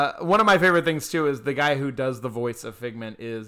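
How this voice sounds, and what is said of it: Usual voice. Nothing is said of it.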